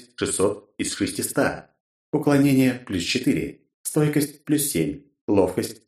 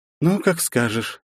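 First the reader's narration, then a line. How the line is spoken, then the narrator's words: Girl's upset sigh. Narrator (Russian): Явно расстроенно вздохнула девушка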